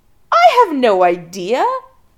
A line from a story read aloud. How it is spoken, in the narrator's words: Adam laughs a little hysterically